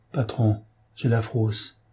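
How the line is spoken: Frightened stammer. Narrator (French): bégaya Gilbert

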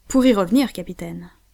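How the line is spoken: Quick reply. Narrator (French): répondit vivement Pencroff

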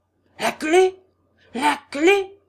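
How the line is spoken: Man howling. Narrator (French): hurla l'homme

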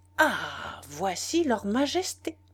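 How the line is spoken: Exclaimed. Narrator (French): s'écria-t-il

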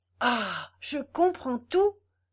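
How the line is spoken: Exclamation. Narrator (French): s'écria Godefroy

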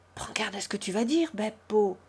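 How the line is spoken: Whispered. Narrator (French): dit Consuelo tout bas à Joseph

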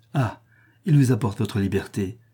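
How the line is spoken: Joyful exclamation. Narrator (French): s'écria Thaïs, aussi joyeuse de cette nouvelle que Théon et Elpis

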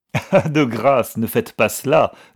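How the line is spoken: Laughing harder. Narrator (French): reprit Algernon en riant plus fort

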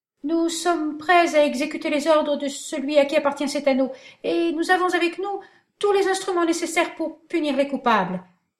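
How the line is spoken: Stammering, trembling officer. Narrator (French): dit le lieutenant de police en balbutiant et en tremblant

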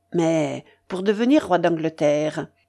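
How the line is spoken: Cold. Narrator (French): dit froidement son Architophel

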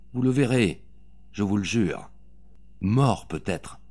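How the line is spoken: Muffled voice. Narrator (French): fit-elle d'une voix sourde

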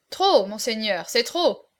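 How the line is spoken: Crowd exclaiming. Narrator (French): s'écria-t-on de toutes parts

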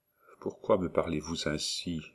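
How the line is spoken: Murmured. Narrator (French): murmura-t-il

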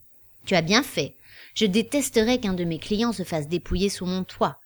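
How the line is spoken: Pleasant, subtly threatening. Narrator (French): commenta-t-il d'un ton amène mais discrètement menaçant

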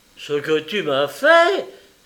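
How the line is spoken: Exclaiming. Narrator (French): s'exclama Bouburoche

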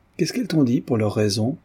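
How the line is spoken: Calm question. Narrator (French): demanda Redzov d'un ton placide

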